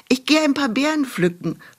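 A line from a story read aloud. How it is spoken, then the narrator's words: Calling out to mother. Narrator (German): rief sie ihrer Mutter zu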